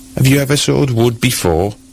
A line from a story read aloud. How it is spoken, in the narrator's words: cried the stranger